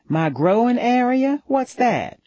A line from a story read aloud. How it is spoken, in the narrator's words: Her southern drawl was thicker than mine